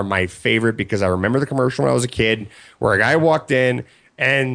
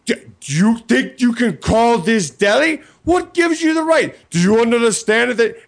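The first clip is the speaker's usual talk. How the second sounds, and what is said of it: New York accent. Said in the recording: “That's a really good New York accent, too.”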